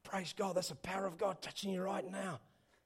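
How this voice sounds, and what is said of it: Poor put-on Australian accent. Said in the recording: “that's my Australian accent ... It's pretty bad, actually.”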